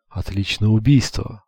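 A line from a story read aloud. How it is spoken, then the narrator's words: Admiring whisper. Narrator (Russian): восхищенно прошептал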